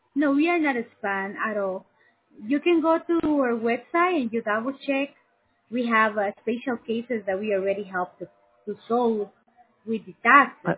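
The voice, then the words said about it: Strong foreign accent. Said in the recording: “you have a really foreign accent”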